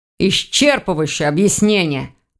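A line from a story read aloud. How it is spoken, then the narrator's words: Grumbling. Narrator (Russian): проворчал Сидоров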